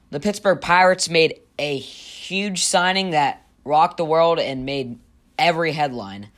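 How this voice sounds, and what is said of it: Sarcastic delivery. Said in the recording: “that was sarcastic.”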